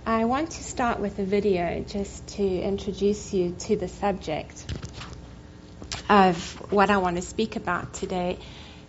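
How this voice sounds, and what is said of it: Non-American, South African accent. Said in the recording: “You can hear by my accent probably that I'm not American ... I was born in Cape Town in South Africa”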